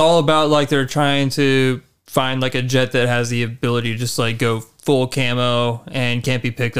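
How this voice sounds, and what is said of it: Usual voice. Nothing is said of it.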